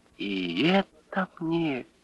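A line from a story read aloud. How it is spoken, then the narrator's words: Barely audible babble. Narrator (Russian): Еле слышно пролепетала Лиска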